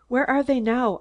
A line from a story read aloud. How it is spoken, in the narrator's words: I gasped, fear clutching at my throat